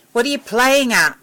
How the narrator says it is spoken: shouted

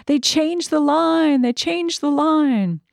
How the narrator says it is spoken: She screams out

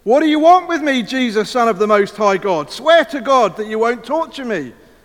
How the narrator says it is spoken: Shout at the top of his voice

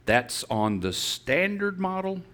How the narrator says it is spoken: asked the angel

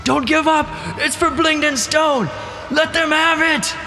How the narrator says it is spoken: Sark yells

